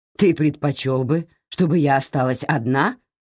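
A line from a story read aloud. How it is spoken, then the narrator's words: Sharp question. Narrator (Russian): резко спросила Кэтрин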